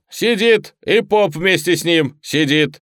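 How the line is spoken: Cheerful shout. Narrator (Russian): весело крикнул

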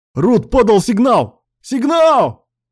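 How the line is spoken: Shouting from all sides. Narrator (Russian): Кричали со всех сторон

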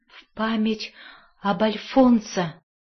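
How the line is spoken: Weak, strained mutter. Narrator (Russian): Наконец, после нечеловеческой борьбы со своей слабостью, он пробормотал

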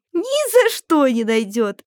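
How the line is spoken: Giggling groceries. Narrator (Russian): хихикали продукты

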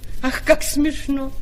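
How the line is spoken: Cynical, shameless laughter. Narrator (Russian): А маленькая ящерица, склонная к некоторому цинизму, беззастенчиво расхохоталась

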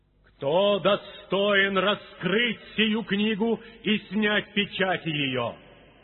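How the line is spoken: Loud mighty proclamation. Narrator (Russian): ангела сильного, провозглашающего громким голосом

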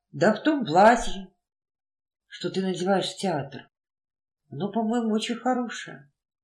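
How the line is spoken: Mutter. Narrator (Russian): он пробормотал

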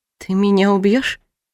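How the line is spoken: Trembling question. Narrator (Russian): Спросила я дрожащим голосом

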